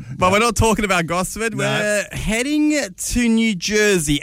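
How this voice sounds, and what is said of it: Usual voice. Nothing is said of it.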